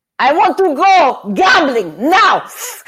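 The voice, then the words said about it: Imitates another person's voice. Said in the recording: “I'll give you a little impersonation of, of how he was, because this is literally the way he was.”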